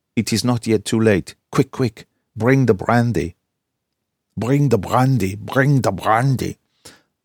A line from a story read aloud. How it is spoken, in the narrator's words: he cried out to me